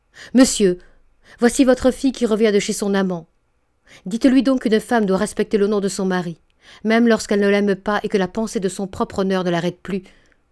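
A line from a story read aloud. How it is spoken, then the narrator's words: Exclaimed. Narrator (French): s'écria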